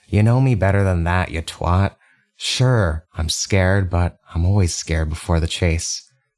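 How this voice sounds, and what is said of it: Softer character voice. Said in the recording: “in a softer voice”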